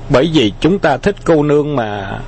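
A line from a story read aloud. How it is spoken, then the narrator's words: Smiling. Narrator (Vietnamese): Khâu Trọng mỉm cười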